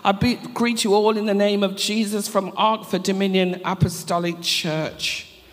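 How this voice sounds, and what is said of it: Noticeable accent, quick speech. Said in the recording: “I hope you can understand the accent... I'm very quick, so I have to slow myself down”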